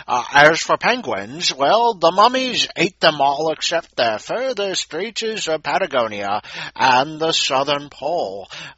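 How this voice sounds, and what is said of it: Deliberately lousy put-on accent. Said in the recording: “today's 100-word story in lousy accent.”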